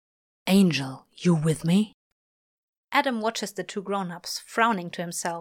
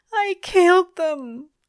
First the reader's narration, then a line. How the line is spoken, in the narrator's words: Aziraphale moans, lowly